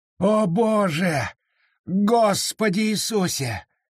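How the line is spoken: Moaning. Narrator (Russian): застонал капитан Мур

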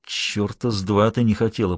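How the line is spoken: Hissing. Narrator (Russian): прошипел он

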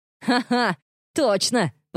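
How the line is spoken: Laughing. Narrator (Russian): посмеялся Билли

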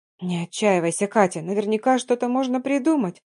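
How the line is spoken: Hopeful whisper. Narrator (Russian): шептала та часть меня, что еще верила в чудо

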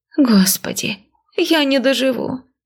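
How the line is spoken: Moaning. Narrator (Russian): простонала Надка

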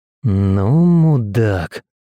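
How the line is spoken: Drawled. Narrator (Russian): протянул Макс

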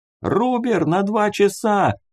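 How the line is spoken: Yelling into headset. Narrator (Russian): заорал я в гарнитуру

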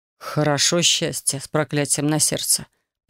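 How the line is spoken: Man muttering. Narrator (Russian): пробормотал мужчина

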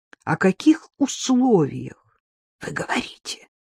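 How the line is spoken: Frightened voice. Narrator (Russian): спросил Яцек испуганным голосом

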